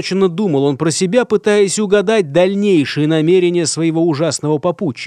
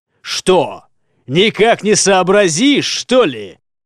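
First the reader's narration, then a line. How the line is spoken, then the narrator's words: Loud menacing bark. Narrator (Russian): Громко рявкнул страшный человек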